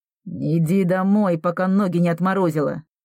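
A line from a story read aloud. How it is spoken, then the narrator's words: Hissed through teeth. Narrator (Russian): Сквозь зубы прошипела Тома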